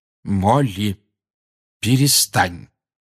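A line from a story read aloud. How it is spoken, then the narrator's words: Firm voice. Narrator (Russian): твердым голосом сказал Люпин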